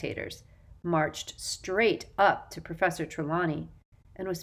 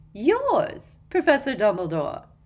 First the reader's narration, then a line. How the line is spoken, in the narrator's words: said Umbridge, with a singularly unpleasant little laugh